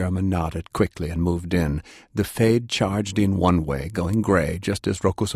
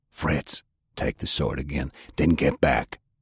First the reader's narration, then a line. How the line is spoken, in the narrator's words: Sullivan to hiss